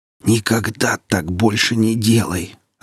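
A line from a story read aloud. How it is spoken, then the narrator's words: Strangled, disgusted wheeze. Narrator (Russian): сдавленно просипел брезгливый Ильин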